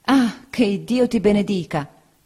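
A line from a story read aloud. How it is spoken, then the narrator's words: Woman's exclamation. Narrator (Italian): esclamò la signora Bezze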